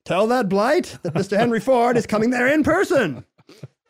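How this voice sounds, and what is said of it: Old-fashioned mid-Atlantic accent impression. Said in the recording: “Why does he talk like that? ... that's how everyone talked at the time. ... Was he talking into a megaphone like Rudy Valley? ... the mid-Atlantic accent.”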